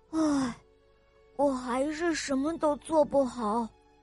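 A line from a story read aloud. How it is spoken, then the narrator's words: Sighing. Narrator (Chinese): 小象叹了一口气，他说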